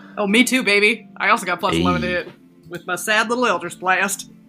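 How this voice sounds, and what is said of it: Put-on Southern US accent. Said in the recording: “Are we all doing southern accents now?”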